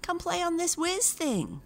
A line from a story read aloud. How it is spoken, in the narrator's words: Boogaloo cried